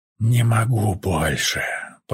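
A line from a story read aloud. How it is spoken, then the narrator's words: Moaned. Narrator (Russian): простонал Тайс и начал содрогаться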